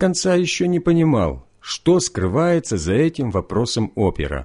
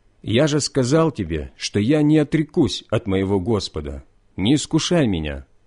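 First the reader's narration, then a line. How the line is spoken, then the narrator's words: Plain. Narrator (Russian): ответил я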